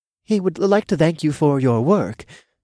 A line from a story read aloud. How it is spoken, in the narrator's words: the gray-haired man began shakily